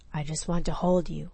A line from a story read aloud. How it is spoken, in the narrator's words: he whispered roughly